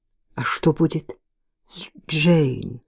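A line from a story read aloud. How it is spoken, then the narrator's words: Trembling question. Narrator (Russian): спрашиваю я дрожащим голосом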